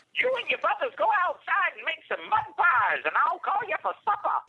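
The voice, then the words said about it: Imitates another person's voice, grandmotherly accent. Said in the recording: “Oh my God, you're my grandma... You have the same accent and everything.”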